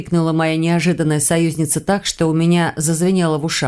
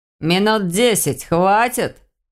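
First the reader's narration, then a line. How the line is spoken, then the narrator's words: Mocking voice from afar. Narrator (Russian): донеслось насмешливо из поляны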